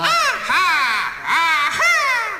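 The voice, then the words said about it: Exaggerated stage-style falsetto laugh. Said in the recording (Chinese): “小声笑最有特色 ... 小声是这么笑”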